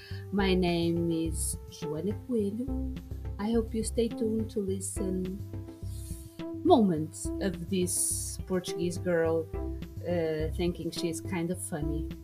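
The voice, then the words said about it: English with a Portuguese accent. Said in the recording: “a Portuguese podcast turned into English with a Portuguese accent”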